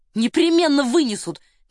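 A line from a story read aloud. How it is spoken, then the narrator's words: Fervent exclamation. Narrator (Russian): горячо воскликнул Девре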